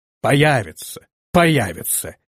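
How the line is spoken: Irritated grumbling. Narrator (Russian): раздраженно проворчал князь

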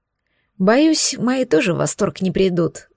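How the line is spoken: Sighing. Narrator (Russian): вздохнула я

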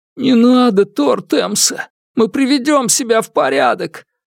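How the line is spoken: Whimpering. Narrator (Russian): заскулил один из телохранителей

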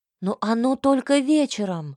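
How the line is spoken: Disbelieving exclamation in chorus. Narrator (Russian): Хором воскликнули мы, не веря своим ушам

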